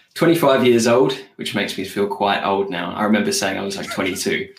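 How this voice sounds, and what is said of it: British accent. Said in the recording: “the strange accent, I'm from the UK”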